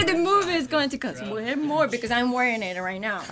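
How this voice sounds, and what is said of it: Speaks with a noticeable accent. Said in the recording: “There's an accent.”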